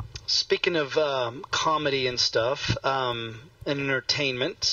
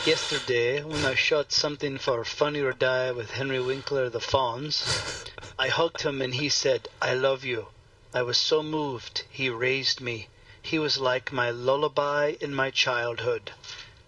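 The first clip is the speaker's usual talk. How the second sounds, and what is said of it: Put-on French accent, Jean Dujardin. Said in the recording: “Jean Dujardin ... I'm trying to have a French accent.”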